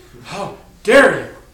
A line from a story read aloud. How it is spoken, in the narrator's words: Mama hissed